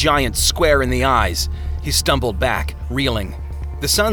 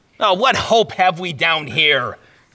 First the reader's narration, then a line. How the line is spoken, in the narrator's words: Christian bellowed